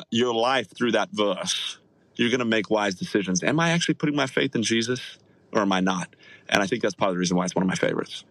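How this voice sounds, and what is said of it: Australian accent. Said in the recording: “how much better Bible verses sound when they're read by somebody with an Australian accent”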